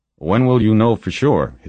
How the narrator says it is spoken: his father asked

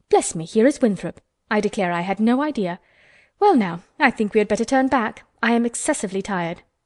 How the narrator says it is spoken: Mary exclaimed

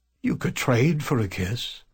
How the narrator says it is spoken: the blind man suggested with a chuckle

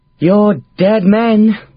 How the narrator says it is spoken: sighed Shanker Mary

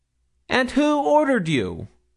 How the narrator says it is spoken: exclaimed Milly

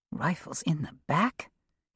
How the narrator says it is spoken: he said, under his breath

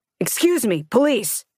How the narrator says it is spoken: he shouted

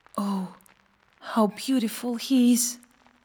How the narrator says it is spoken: Tiny whispered to the swallow

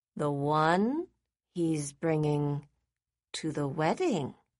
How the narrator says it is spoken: Daisy replied slowly

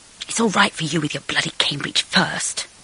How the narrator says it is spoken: I whispered, sniffing

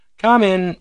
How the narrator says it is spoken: cried the voice, rather a pleasant voice

